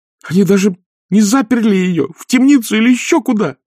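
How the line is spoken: Furious exclamation. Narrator (Russian): воскликнула Агнеса, охваченная яростью

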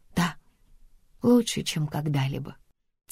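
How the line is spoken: Quiet answer. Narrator (Russian): тихо отвечаю я

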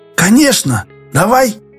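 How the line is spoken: Repeated, then terrible voice. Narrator (Russian): Юрковский повторил, и Дауга ужасным голосом подхватил

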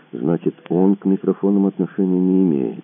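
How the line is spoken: Drawling. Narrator (Russian): протянул Мазур

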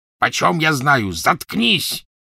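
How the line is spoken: Gruff bark. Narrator (Russian): рявкнул грубый голос

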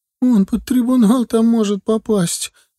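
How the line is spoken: Sobbing. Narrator (Russian): опять разрыдалась она

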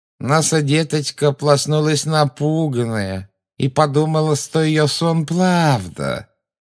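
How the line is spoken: Creepy nasal mocking childish voice. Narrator (Russian): Жутко прогнусавила женщина, издевательски подражая детскому выговору

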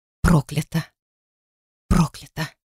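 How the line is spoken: Whisper in a vision. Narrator (Russian): шепот в видении

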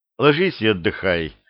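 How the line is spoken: Soft. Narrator (Russian): мягко сказал Репин

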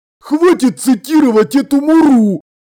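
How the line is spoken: Barked. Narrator (Russian): рявкнул Колон

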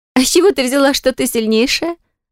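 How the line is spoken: Question after laughing. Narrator (Russian): Наконец, отсмеявшись, спросила Лизабетта

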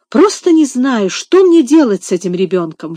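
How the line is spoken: Desperate exclamation. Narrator (Russian): в отчаянии воскликнула мисс Офелия

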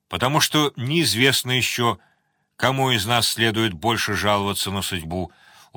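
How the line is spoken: Sad wry chuckle. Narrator (Russian): усмехнулся Борн как-то грустно

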